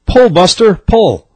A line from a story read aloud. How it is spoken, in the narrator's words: the farmer hollered